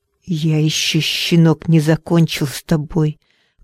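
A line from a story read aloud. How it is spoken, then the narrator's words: Hissed. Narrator (Russian): прошипел он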